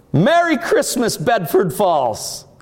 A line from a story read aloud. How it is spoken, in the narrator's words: he shouts